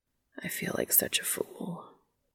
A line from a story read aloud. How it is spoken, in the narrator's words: says, almost a whisper